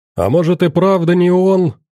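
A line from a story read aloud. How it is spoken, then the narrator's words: Someone shouting. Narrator (Russian): выкрикнул кто-то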